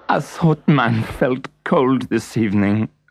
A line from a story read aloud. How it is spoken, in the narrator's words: sobbed the French horn player